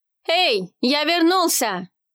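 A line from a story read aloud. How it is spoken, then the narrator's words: Shout. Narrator (Russian): крикнул он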